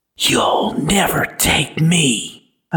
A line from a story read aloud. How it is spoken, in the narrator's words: whisper